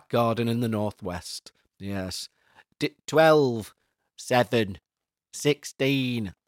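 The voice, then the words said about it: Put-on northern English accent. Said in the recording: “That's my northern accent.”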